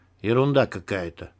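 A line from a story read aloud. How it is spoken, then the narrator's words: Muttered. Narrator (Russian): пробормотал Егор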